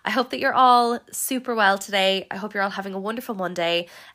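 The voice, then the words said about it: Sick-sounding voice. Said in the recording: “If you can tell by my voice, I am sick... I do not sound like this throughout the interview”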